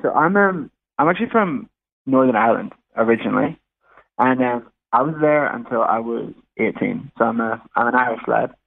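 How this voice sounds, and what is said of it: Mixed international accent, not quite Australian. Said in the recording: “you've got an accent that isn't quite Aussie ... it's morphed into this mess ... It's become very international.”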